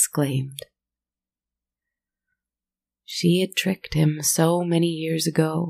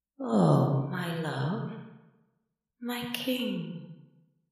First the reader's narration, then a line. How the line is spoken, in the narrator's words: purred in a suspiciously comforting tone